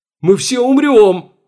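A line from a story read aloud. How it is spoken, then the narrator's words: Panicked scream. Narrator (Russian): в панике завопил Чертанов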